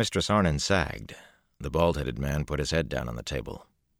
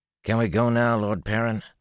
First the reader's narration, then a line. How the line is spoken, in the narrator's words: Flan asked anxiously